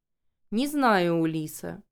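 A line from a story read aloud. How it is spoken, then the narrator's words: Lazy. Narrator (Russian): лениво ответил он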